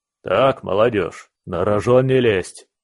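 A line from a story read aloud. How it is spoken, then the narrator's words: Old soldier barking. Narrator (Russian): рявкнул старый прапорщик Иван Семенович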